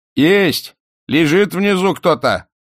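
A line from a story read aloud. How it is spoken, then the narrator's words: Distant shouting. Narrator (Russian): закричали с середины двора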